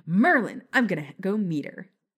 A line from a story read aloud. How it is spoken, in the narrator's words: She exclaimed excitedly